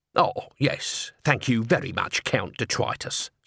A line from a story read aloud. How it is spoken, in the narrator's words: said Nobby bitterly